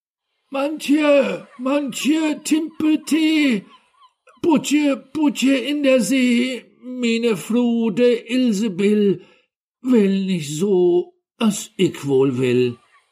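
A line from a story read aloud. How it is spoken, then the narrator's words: Called out. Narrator (German): rief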